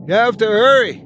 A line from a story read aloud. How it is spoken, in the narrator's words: I shout